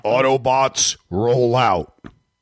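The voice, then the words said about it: Imitates a robot character's voice. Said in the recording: “I can do one good impersonation of Optimus Prime... That's good... That is good... Dude, that was really good.”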